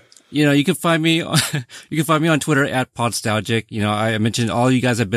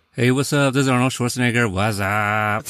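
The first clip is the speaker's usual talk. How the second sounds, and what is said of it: Imitates another person's voice. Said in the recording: “you want to hear more impersonations.”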